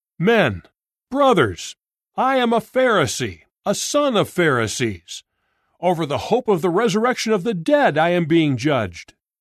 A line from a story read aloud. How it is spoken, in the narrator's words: Paul cried out in the Sanhedrin